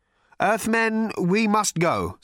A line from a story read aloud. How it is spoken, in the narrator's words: said Slarty Bartfast nervously